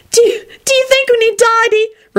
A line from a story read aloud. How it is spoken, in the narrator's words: Rosie gasped out